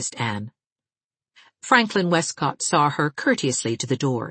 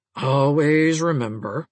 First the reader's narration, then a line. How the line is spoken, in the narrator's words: said solemnly